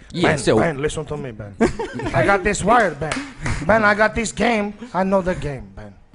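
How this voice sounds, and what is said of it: Vaguely African put-on accent. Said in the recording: “I must immediately change my accent ... Sounds vaguely African.”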